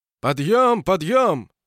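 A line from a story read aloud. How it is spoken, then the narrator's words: Shouting nearby. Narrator (Russian): закричали совсем рядом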